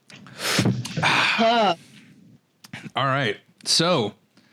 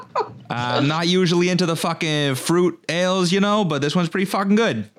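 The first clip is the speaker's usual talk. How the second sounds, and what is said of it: Put-on Massachusetts accent. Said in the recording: “in true Massachusetts fashion ... the last I'll do of the accent. I'm not going to torture everybody.”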